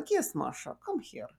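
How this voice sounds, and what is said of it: Thick Russian-Turkish accent. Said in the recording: “this accent that was kind of Russian Turkish ... she had this thick accent”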